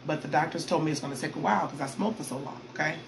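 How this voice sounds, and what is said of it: Voice audibly changed, not normal. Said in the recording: “My lungs have been cleaning themselves. You can hear it in my voice. I'm like, I want my old voice back.”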